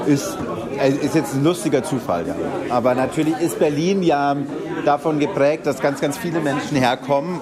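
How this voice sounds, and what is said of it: Strong Bavarian German accent. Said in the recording (German): “starker bayerischer Akzent ... Hier in Berlin sagen alle, man hört es sehr.”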